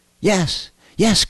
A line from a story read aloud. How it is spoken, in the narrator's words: cried Milty